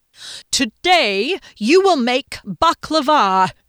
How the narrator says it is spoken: he boomed

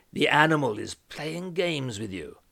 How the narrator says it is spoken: chuckled

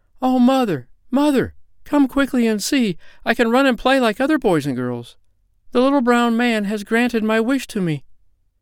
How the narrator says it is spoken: she cried out

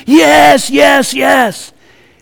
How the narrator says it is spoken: they all screamed and hollered and said

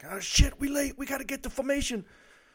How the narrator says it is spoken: jump out of bed yelling in a panic

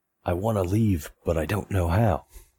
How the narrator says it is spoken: whisper back

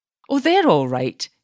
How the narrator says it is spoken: exclaimed quickly

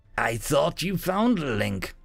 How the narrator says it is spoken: the figure sneered

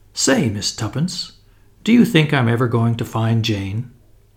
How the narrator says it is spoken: Julius spoke in a discouraged voice

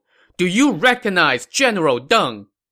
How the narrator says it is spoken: This young man shouted across the field

